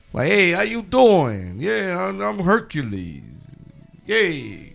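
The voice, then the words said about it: Mock Brooklyn accent. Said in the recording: “He was talking like he was straight out of Brooklyn.”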